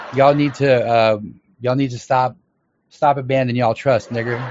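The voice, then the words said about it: Imitates another person's voice. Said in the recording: “That was my Dave Chappelle impression.”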